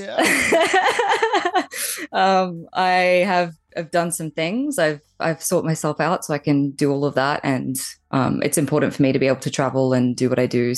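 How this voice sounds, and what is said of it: Australian accent. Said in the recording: “as you can tell by my really cute accent, I'm Australian”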